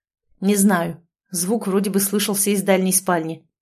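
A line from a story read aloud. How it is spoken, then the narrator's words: Snapping. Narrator (Russian): огрызнулся он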